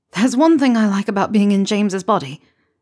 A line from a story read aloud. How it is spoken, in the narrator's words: Remus blurted out, the confession tumbling from his lips like poison